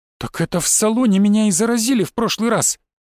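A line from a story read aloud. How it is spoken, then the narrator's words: Sudden angry exclamation. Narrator (Russian): внезапно гневно воскликнула женщина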